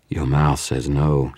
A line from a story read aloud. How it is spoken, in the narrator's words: she purred